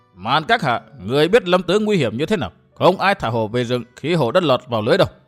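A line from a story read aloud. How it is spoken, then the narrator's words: Harsh, mournful old voice. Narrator (Vietnamese): Lão gai gắt cất giọng thê thế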